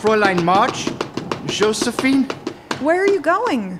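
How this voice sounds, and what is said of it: Speaks with a foreign accent. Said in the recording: “a man with sort of an accent.”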